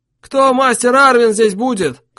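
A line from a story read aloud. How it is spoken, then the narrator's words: Man shouting from shore. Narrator (Russian): крикнул с берега высокий, жилистый мужик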